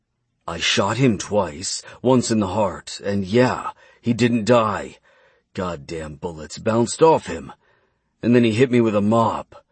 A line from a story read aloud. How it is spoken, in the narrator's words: Edgar growled